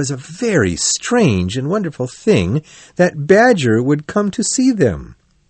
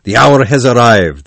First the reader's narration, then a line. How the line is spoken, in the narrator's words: the badger said loudly